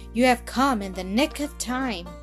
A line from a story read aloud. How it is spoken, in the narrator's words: cried Miller